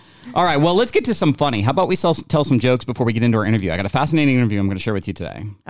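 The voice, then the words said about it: Very fast jumbled auctioneer-like speech. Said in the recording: “That was a very fast sentence... Like it jumbled... Did I go too fast for you?... Did I sound like an auctioneer?”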